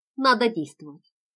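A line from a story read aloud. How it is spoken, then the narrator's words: Resolute tone. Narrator (Russian): сказала решительным тоном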